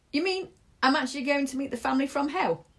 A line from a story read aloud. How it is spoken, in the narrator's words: Salom laughed